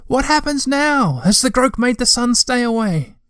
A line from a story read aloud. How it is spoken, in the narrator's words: he shouted